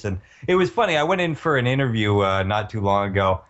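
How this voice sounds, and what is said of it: Put-on radio broadcaster voice. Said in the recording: “You sound very broadcasty ... putting on my best broadcast voice”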